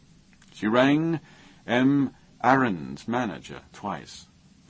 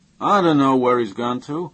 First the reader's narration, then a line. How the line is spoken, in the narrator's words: manager said crossly